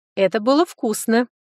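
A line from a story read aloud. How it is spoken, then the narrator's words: Carefree giggle. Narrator (Russian): Беззаботно хихикнула я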